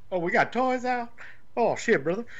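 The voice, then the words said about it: Bad Hillbilly Jim impression. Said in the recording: “worst Hillbilly Jim impersonation.”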